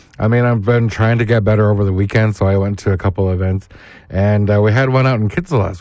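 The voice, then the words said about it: Hoarse, recovering voice. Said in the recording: “My voice is still kind of coming back ... I definitely lost my voice”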